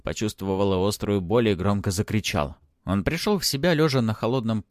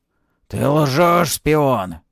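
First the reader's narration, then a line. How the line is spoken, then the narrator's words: Knight growling. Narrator (Russian): прорычал рыцарь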